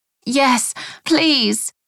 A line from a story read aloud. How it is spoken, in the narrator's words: I cried between gasps for air